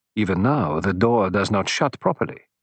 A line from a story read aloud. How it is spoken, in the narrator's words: murmured Poirot